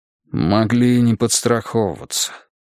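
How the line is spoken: Gruff mutter. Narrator (Russian): буркнул Переверзев

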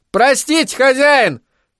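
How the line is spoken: Shouted. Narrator (Russian): крикнул он

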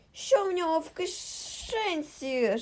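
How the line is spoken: Loud sharp hissing. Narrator (Ukrainian): Шипіння ставало дедалі гучнішим і різкішим

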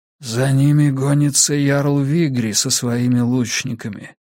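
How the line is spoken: Hoarse, slightly strange distant voice. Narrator (Russian): донесся из темноты голос Слудига, звучавший хрипло и немного странно

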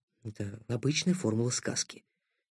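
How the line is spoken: Quiet. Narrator (Russian): так же тихо отозвался Никита

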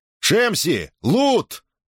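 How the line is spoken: Shouted. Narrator (Russian): крикнул он

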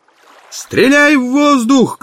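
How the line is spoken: Shouted. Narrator (Russian): крикнул Барни Далласу

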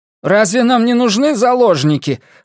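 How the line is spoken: Irritated. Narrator (Russian): раздраженно бросил Найджел

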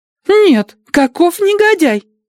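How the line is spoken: Young woman's exclamation. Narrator (Russian): воскликнула молоденькая Адати

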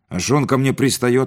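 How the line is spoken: Snapping retort. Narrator (Russian): огрызнулся Витька

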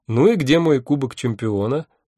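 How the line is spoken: Smug laugh, then asking. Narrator (Russian): Я самодовольно рассмеялся и спросил

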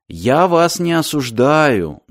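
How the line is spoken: Gentle. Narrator (Russian): мягко сказал Мартин

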